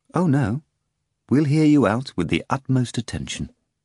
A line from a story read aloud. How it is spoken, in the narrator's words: Stravinsky said in a serious but calming voice